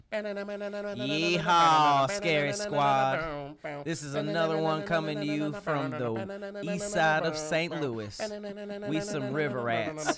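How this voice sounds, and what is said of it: Put-on country twang. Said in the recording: “Find some twang.”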